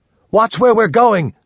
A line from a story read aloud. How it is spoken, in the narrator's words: the lady yelled